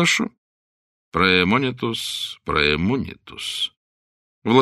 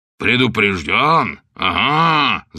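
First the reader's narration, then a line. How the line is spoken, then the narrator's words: Growling. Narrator (Russian): зарычал бишоп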